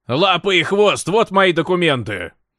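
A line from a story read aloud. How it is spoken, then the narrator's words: Shouting over engine noise. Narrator (Russian): Хотел крикнуть в ответ, чтобы шум работающего двигателя на катере перекричать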